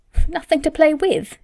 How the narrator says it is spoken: exclaimed Martha

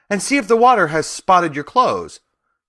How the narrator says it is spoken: cried my grandfather

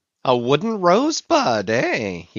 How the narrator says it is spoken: he cried with his hand to his nose

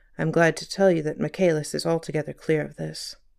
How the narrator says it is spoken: The assistant commissioner added in a low tone

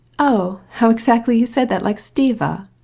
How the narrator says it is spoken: remarked Dolly, laughing

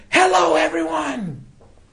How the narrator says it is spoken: screaming

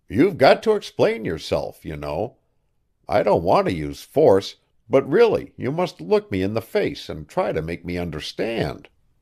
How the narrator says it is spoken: said firmly

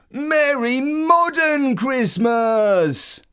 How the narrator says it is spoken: Uncle Christmas, who stuffed himself with sweets and chocolate and got massively overexcited and shouted

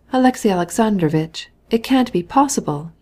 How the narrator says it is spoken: he cried with pain expressed in his face

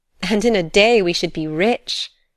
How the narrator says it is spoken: she laughed

